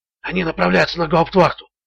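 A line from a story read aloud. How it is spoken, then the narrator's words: Whispered explanation. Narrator (Russian): шепотом объяснил Ричард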